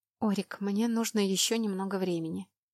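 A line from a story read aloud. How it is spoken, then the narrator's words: Mumbled. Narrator (Russian): пробормотала я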